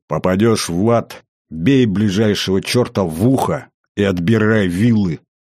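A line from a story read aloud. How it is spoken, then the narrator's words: Growling in someone's face. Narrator (Russian): прорычал дядя в лицо Ваня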